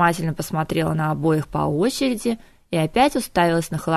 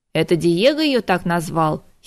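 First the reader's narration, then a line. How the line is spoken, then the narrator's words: Giggling. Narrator (Russian): хихикнул Мафей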